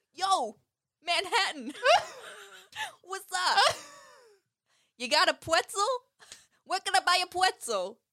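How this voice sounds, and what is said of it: Put-on New York accent. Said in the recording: “the New York accent”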